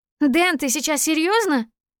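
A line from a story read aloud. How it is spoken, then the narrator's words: Shrill squeal. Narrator (Russian): Взвизгиваю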